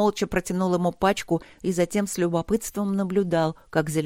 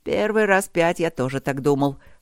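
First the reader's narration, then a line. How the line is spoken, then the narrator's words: Snorting chuckle. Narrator (Russian): хмыкнул Люк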